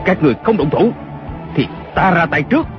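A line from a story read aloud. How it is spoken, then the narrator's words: Shouting. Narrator (Vietnamese): Kiều Phong lại quát lên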